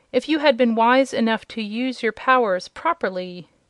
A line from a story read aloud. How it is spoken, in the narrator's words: said the demon sternly